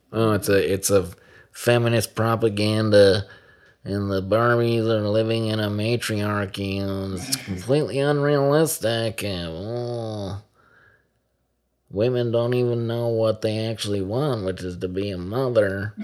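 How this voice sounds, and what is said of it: Mocking nerdy character voice. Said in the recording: “This is a terrible nerd voice”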